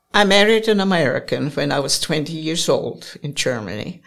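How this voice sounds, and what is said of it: German accent. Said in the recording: “I still got my German accent. I can't get over that.”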